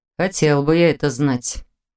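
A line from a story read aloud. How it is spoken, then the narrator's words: Thoughtful sigh. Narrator (Russian): задумчиво вздохнул Непогодин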